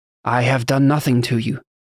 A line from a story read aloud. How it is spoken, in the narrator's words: the Tekoni man said in his thick accent, sounding as much confused as he was angry